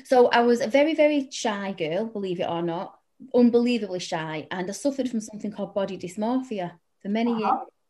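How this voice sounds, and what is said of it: Salford English accent. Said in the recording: “I'm a Salford girl. Anyone listening can probably tell with my accent”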